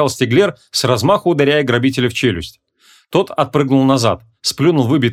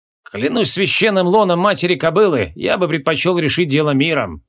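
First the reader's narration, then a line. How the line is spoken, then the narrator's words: Leader's sad sigh. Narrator (Russian): Грустно вздохнул главарь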